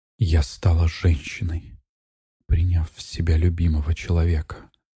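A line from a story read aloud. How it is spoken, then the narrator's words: Whispered. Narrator (Russian): прошептала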